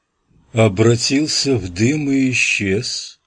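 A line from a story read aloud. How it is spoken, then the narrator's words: Drawled. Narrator (Russian): протянул Пирсон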